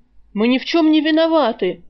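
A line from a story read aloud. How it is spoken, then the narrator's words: Indignant shouting. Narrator (Russian): возмущенно орал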